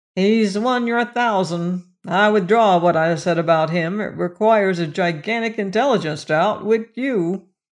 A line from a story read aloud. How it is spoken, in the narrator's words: Merkel observed dryly